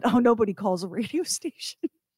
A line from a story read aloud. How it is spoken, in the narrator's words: laughed and he said